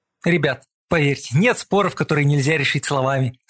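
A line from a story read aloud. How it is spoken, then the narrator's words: Plain. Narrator (Russian): сказал я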